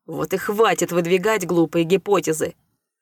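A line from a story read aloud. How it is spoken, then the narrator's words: Barking snap. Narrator (Russian): рявкнул Рэй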